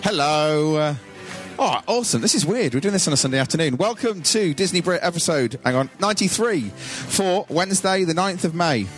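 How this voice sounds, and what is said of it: Put-on posh English voice. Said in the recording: “putting on my posh voice today? I always do. She always moans that I put on a posh voice”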